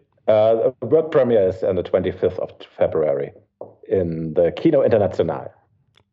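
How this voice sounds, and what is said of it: Non-native, German-accented English. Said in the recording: “sorry for my broken English, because I'm working hard on my Werner Herzog impression”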